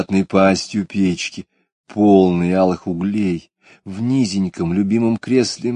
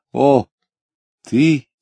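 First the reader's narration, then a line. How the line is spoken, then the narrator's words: Quiet sigh. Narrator (Russian): тихо вздохнула она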